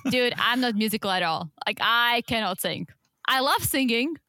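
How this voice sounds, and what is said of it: Speaks with a lasting accent. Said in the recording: “I will never lose my accent”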